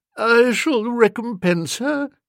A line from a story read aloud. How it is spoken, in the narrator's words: said Aunt Agatha, feebly